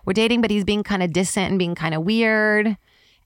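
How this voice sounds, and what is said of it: New York accent. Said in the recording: “That's why I sound like this. Like my accent. ... I became a New York person very quickly.”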